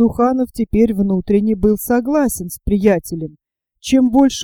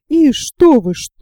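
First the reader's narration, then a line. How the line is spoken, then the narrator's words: Shouting. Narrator (Russian): закричала она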